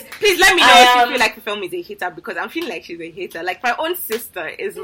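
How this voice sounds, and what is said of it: Speaks with a distinctive accent. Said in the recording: “this accent, you have to let me in ... this accent is so fascinating ... Is this the voice you know her as?”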